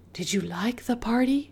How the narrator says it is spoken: Mama whispered

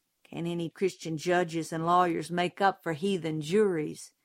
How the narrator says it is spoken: Jim muttered

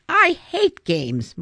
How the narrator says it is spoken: Mulroney snapped

